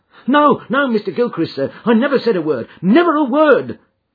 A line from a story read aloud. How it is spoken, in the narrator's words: cried the servant